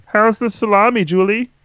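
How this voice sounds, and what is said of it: Imitates another person's voice. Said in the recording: “do a Verona voice”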